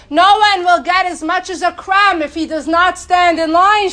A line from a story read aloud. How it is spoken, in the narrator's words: shouted